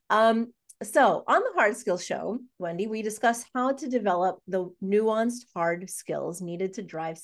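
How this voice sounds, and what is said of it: Nasal, congested voice from illness. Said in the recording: “I have to say I'm sick again... My voice is probably going to sound quite nasally”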